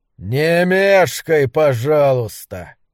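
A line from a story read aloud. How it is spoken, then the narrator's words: Growled. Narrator (Russian): прорычал он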